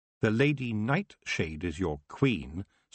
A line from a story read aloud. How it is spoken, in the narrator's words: said Tiffany firmly